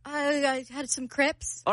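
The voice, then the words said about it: Bad put-on British accent. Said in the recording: “Our accents suck.”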